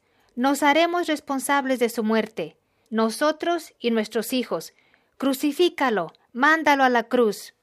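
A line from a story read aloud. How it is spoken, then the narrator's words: Crowd shouting. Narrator (Spanish): la gente respondió a gritos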